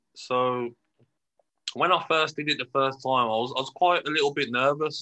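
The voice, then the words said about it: Brummie (Birmingham) English accent. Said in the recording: “my accent, um, the Brummie accent.”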